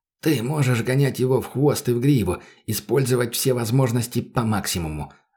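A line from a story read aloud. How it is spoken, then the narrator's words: Plain. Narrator (Russian): ответил мужик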